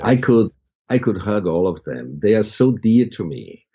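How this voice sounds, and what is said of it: Foreign-accented, slightly slow English. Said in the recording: “with my accent, I speak a little bit slower”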